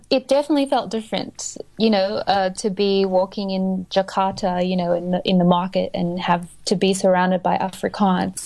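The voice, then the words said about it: New York accent. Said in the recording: “this beautiful English, you know, with the New York accent”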